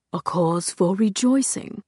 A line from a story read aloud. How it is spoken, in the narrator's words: he said in a low, contemplative voice